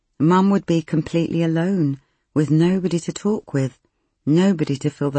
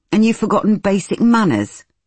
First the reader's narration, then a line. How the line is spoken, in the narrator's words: Nikki snapped